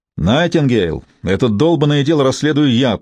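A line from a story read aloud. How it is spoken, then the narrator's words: Booming voice. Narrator (Russian): прогремел Сивилл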